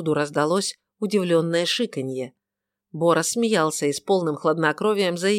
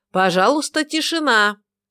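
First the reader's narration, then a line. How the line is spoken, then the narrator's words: Loud announcement. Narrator (Russian): Бо Лавлейс громко произнес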